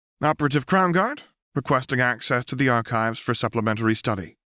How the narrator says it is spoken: said sharply

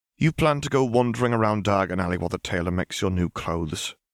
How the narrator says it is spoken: sighed Hermione

